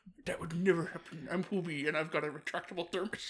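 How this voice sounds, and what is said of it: Imitates a character's odd accent. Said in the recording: “I don't know why he's got this accent. It's so weird. Like, just hearing you try to do the voice just makes it just so much weirder.”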